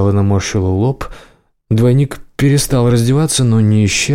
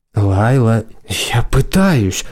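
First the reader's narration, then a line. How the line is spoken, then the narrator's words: Through gritted teeth. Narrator (Russian): процедила она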